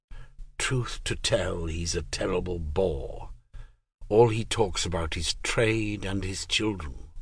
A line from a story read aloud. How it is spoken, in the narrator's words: The man lowered his voice and, in a conspiratorial tone, said